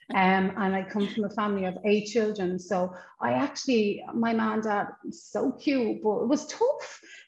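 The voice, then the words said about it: Irish accent. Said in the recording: “I come from Ireland, obviously, as you know, from the accent”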